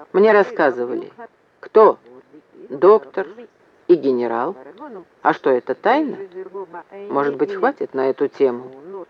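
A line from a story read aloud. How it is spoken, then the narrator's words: Quiet. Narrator (Russian): сказал Вепрь тихо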